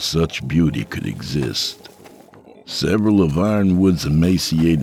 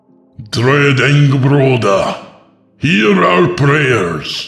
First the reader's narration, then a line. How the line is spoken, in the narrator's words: the priest shouted, no longer singing